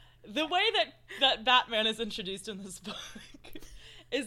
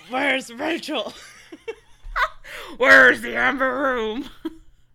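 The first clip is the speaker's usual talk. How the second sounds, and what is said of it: Batman character voice. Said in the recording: “do the Batman voice. ... We're very good Batmans.”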